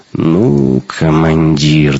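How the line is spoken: Drawled in annoyance. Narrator (Russian): досадливо протянул Шибанов

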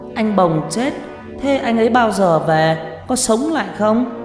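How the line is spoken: Whimpering, crying. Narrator (Vietnamese): Nó cứ đứng mếu máo khóc

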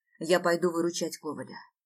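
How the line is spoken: Completely calm. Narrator (Russian): произнесла я совершенно спокойно

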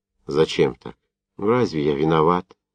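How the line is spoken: Quiet, embarrassed question. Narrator (Russian): Тихо, конфузливо спросил легалов

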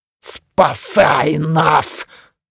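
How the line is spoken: Growled. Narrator (Russian): зарычал священник

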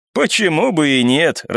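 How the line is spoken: Laughing. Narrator (Russian): рассмеялся первый

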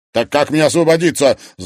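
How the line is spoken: Asked angrily. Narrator (Russian): злобно спросил Стас

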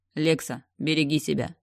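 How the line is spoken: Commanding tone. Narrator (Russian): сказал Пауэлл командирским тоном

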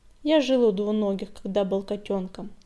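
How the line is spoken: Calm. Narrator (Russian): спокойно ответил Огонек

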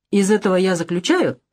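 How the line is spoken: Calm. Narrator (Russian): продолжал спокойно Перкинс

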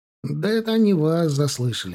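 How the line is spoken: Tired. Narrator (Russian): проговорил устало Копорский

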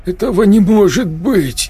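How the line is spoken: Strained, forced out. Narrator (Russian): выдавил техник

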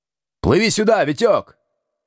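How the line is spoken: Shouting. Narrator (Russian): крикнул Колесников

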